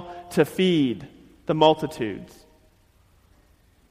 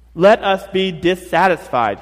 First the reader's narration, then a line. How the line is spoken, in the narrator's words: said